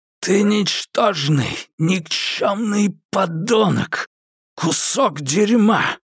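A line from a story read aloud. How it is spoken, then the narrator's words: Old man's hiss. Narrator (Russian): прошипел старик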